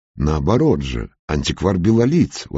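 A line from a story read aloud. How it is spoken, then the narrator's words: Exclaimed. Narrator (Russian): воскликнул Валентин Семенович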